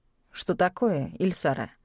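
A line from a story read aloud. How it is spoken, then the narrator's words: Cold question. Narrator (Russian): холодно поинтересовался он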